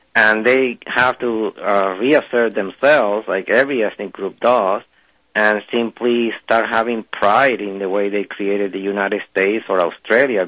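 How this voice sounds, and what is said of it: Mixed French and Spanish accent. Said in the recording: “I'm trying to figure out your accent. You don't seem French. ... A Spanish accent. ... I'm hearing the French and I'm hearing some of the Spanish”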